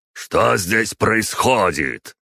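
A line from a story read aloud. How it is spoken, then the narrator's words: Booming familiar voice. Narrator (Russian): прогремел знакомый голос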